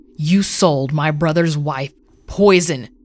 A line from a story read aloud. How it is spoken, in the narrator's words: he rumbled